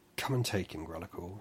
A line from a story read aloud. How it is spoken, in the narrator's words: said Orinorta